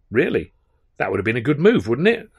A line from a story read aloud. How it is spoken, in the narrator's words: said